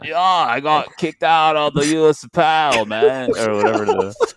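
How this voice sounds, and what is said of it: Put-on Australian accent. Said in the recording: “let me do my Australian accent ... Pretty good, right? ... pretty good ... It was pretty close at the beginning. It was actually going somewhere.”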